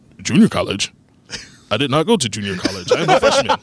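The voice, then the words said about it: Robotic, very proper-sounding imitated voice. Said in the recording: “do an impression of me from college, they got this robotic. I don't know what voice is that. ... very proper sounding”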